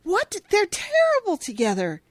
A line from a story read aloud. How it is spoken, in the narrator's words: Cash exclaims